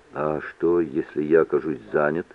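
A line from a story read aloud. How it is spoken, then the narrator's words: Quiet question. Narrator (Russian): тихо спросил Митч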